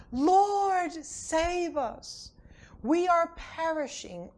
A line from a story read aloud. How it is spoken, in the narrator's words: They cried out to him